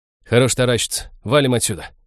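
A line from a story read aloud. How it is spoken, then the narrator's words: Sharp shout. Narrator (Russian): прикрикнул Хелл на оцепеневших друзей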